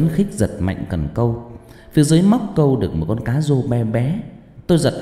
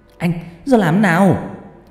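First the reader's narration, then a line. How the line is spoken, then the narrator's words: Excited shout. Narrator (Vietnamese): thấy cần nặng nặng, phao bị chìm xuống, tôi hét lên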